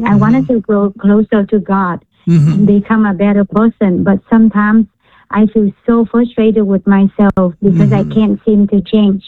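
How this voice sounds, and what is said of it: Vietnamese accent. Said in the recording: “Are you Vietnamese? ... You can tell by my accent.”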